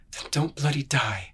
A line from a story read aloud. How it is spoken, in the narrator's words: whispered